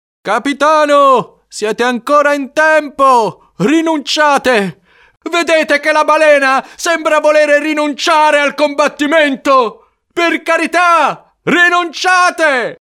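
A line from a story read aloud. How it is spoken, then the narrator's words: Yelled. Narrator (Italian): Dal ponte della Pequod, Starbuck urlò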